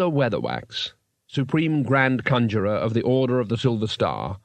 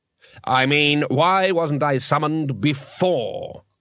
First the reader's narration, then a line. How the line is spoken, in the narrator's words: snapped Golder